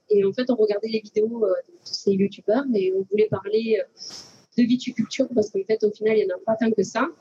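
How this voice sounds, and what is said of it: Southern French accent. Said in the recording (French): “vous allez comprendre qu'on est du sud avec notre accent”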